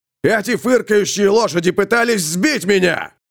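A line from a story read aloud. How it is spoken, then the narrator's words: Shrill shout. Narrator (Russian): пронзительно выкрикнул он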